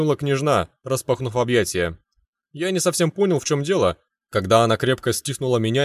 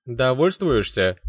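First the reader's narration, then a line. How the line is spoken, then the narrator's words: Snide question. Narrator (Russian): ехидно поинтересовалась Люда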